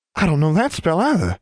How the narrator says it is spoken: she exclaimed

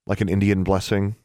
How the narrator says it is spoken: Alexandra asked

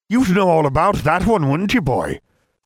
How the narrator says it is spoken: Professor Moody barked

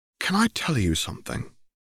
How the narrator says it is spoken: He asked, his voice tentative and full of worry

